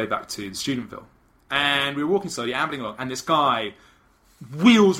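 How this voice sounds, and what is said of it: Usual voice. Nothing is said of it.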